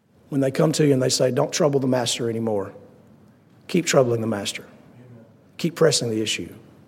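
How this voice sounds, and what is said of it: Strained, hoarse, fading voice. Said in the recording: “I apologize for losing my voice.”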